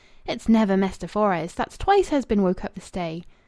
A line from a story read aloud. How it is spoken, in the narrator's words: She was munching a square of bread and cold bacon, exclaiming